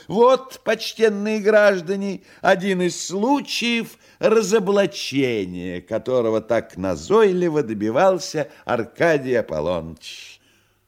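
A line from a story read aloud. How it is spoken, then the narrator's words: Shouted. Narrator (Russian): Фагот, и он же Коровьев, прокричал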